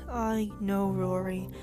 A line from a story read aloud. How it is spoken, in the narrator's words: I groaned